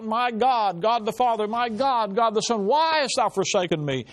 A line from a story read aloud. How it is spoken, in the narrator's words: Jesus Christ cried out